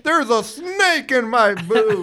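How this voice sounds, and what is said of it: Woody impression. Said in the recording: “Pretend you're Woody ... that's a pretty good impression”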